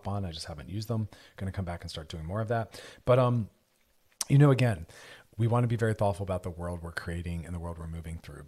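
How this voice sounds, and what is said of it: Strained, fading voice. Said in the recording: “My voice is going a little bit.”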